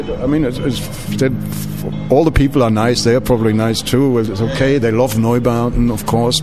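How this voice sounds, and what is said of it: German accent. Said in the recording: “you hear me talking in the radio. You hear my German accent”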